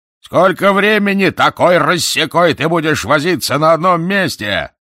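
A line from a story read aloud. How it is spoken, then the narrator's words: Yelling from above, boatswain. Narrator (Russian): заорал сверху боцман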